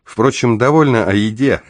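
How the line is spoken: Chuckling. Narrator (Russian): хохотнул я

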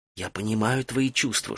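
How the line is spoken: Whispered reply. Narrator (Russian): шепотом ответила Фен

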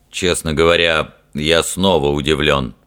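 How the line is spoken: Deep bass voice. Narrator (Russian): пробасил капитан Фример

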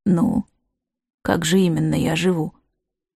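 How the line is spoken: Resigned sigh. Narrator (Russian): Ивга обреченно вздохнула

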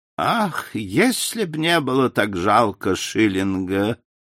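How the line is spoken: Sighing. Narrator (Russian): вздохнула мисс Палмер

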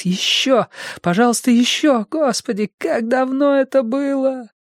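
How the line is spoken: Shuddering moan. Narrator (Russian): Вздрогнув, она застонала

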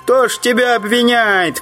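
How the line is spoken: Shouted from crowd. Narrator (Russian): крикнули в толпе

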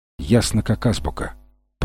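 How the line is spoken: Muttering. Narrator (Russian): пробормотал Фрэнсис

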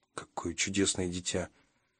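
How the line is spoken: Muttering. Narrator (Russian): пробормотал я

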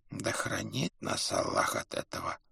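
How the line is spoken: Chronicler's whisper. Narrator (Russian): прошептал летописец

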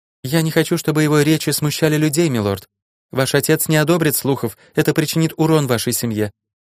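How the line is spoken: Calm reply. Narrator (Russian): ответила она спокойно

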